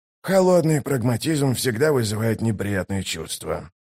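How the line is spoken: Muttering. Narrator (Russian): пробормотал первый кулак

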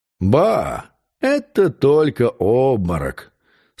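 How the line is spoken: Calm. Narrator (Russian): спокойно сказал Ларош-Буассо

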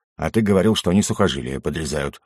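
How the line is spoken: Grumbling. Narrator (Russian): буркнул я

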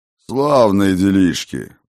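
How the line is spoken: Grumbling. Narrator (Russian): проворчал бывший владыка тьмы

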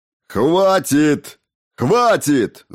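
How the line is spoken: Yelling. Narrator (Russian): заорал Хокинс

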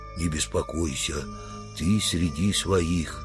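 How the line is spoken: Very quiet, gentle. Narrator (Russian): Тихонько, чтобы не оглушить брата по разуму, он сказал

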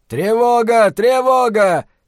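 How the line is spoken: Sentry shouting. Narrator (Russian): крикнул часовой

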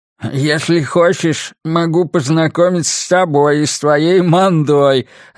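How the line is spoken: Man answering, then laughing. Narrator (Russian): ответил мужчина и засмеялся

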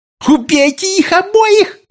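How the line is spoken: Shouting. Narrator (Russian): кричала она

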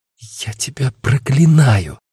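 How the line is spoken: Hissed curse. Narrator (Russian): прошипела Агата

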